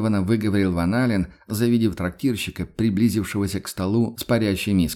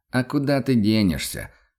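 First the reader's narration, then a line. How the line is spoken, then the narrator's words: Hunter's snort. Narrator (Russian): хмыкнул охотник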